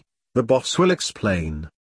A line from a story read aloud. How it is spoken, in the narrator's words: The DS smiled sadly